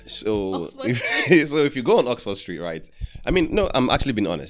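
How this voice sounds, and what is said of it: London accent. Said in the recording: “What part of London does your accent come from?”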